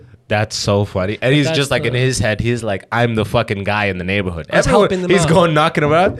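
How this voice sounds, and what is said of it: Usual voice. Nothing is said of it.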